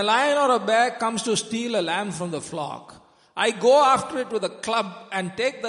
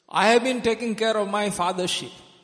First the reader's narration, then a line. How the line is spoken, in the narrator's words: he said